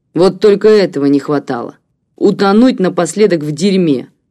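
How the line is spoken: Snorting. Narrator (Russian): фыркнул он

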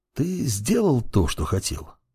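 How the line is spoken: Quiet question. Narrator (Russian): спросил он у него тихо

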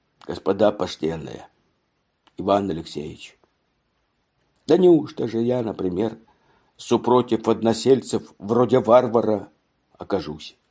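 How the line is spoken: Touched, softened voice. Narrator (Russian): прибавил тронутым и размягшим голосом

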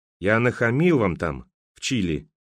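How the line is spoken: Quiet. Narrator (Russian): негромко сказал Береговой

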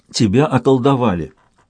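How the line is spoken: Soothing boy's voice. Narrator (Russian): успокаивающим тоном сказал мальчик

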